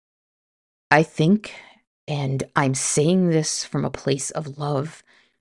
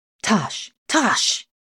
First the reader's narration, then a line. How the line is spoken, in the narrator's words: he hissed